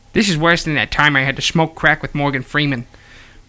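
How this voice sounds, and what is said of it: Poor impression of another person's voice. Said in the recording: “I'm so sick of hearing that impression already... I'm so bad at it too. I'm bad at it. I'm bad at that impression.”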